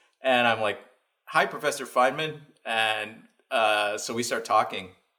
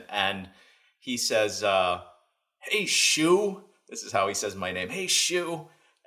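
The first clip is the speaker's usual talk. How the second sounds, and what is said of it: Imitated New York accent. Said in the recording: “I guess it's a Long Island or it's some kind of New York borough accent.”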